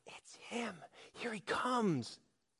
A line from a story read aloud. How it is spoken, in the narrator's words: crowds began to whisper